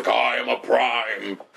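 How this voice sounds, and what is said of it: Optimus Prime impression. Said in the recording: “I actually thought you were Optimus Prime. That impression was flawless.”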